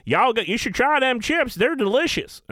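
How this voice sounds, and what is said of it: Imitated hillbilly accent. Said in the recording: “some hillbilly lay behind me like ... I'm just fucking with your accent ... That's what she sounded like”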